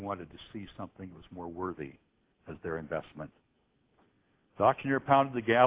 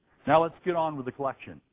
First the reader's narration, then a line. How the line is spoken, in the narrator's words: The man shouted